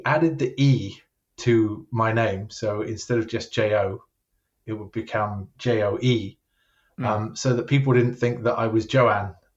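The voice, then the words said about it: British English accent. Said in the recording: “you've got that British accent... my accent is just not going to go away”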